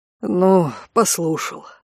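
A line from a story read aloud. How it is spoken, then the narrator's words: Gruff mutter. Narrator (Russian): буркнул Конт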